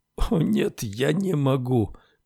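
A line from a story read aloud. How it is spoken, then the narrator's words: Moaning duke. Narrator (Russian): простонал герцог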